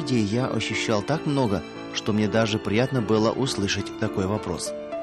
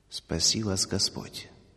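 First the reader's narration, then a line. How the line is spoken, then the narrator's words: Quiet, sorrowful. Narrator (Russian): он устремил на меня взгляд, полный скорби, и тихо произнес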